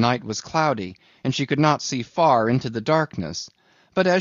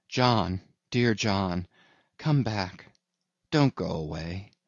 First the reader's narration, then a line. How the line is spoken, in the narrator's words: called softly